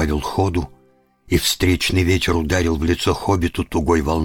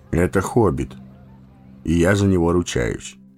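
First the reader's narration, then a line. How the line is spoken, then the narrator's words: Calm. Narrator (Russian): спокойно ответил Гэндальф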